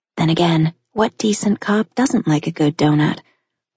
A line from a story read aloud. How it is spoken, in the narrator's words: He chuckled